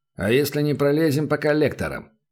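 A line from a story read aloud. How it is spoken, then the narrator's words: Plain question. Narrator (Russian): спросил Шейдер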